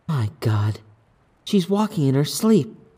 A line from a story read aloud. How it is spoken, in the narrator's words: Sherry whispered to herself